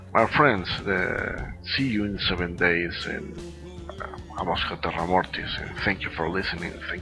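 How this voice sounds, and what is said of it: Strong Spanish accent in English. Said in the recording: “sorry for my accent sometimes, it's really, really Spanish.”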